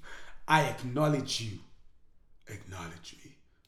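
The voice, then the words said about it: Imitates another person's voice. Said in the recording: “See my impression? ... That was good.”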